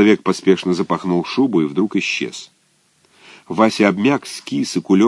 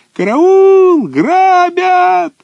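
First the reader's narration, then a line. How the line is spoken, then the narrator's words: Shrill piercing scream. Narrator (Russian): Вася Чесноков закричал тонким пронзительным голосом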